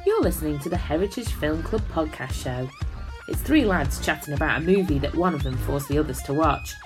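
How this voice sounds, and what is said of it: Posh British accent. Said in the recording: “My fancy British accent is as smart as this show will ever sound.”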